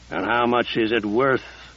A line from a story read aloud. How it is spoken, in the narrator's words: Casey growled